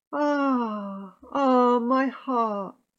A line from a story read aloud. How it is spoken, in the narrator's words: She sighed